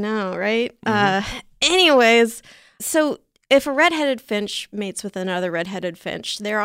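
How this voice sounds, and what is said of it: Usual voice. Nothing is said of it.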